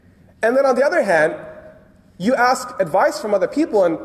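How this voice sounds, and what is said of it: Usual voice. Nothing is said of it.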